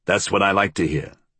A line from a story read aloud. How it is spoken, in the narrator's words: he grunted